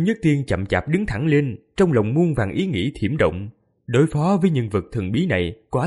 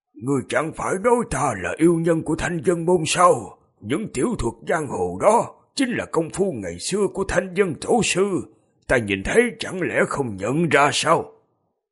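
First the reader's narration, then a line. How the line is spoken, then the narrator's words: Flat hoarse reply. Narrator (Vietnamese): nhạt nhẽo khàn khàn đáp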